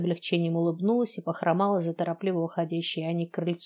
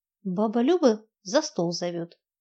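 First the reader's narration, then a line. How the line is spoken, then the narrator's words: Hesitant cough. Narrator (Russian): неуверенно кашлянула моя подопечная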